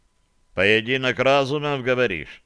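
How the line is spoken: Plain. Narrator (Russian): спросил он

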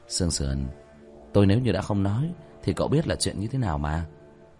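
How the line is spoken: Slight smile. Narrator (Vietnamese): Vương Quân Diệt khẽ mỉm cười

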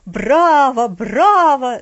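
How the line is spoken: Delighted old man shouting. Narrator (Russian): закричал восторженно дедушка

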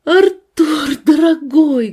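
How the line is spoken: Loud exclamation. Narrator (Russian): громко воскликнула Надежда

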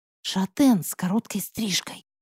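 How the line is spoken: Whispered. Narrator (Russian): прошептала Зайцева

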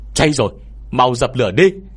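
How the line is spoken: Shout. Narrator (Vietnamese): tiếng hét này vang lên

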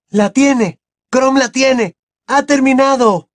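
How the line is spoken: Shouting. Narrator (Spanish): gritó Harry

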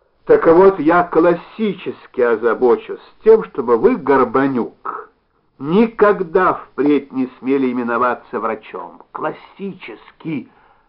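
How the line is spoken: Senseless repeated shout. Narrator (Russian): Бессмысленно повторил он и еще раз крикнул

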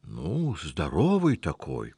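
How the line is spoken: Uncertain rambling. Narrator (Russian): начал неуверенно плести Анчутка

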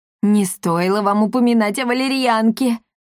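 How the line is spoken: Groan. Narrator (Russian): простонал Акаций

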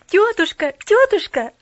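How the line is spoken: Joyful babbling. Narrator (Russian): радостно залепетала она

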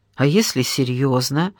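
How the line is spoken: Plain. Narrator (Russian): спросила я

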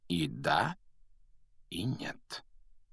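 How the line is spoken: Quiet remark. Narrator (Russian): негромко заметил Дамблдор

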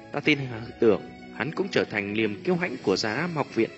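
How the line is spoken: Proud soft laugh. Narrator (Vietnamese): Tiêu Lệ cười một tiếng tự hào khẽ nói

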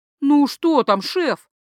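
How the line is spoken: Group whining. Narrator (Russian): заскулили все остальные

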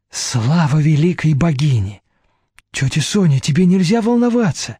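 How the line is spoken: Frightened. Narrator (Russian): Испуганно проговорила Вера

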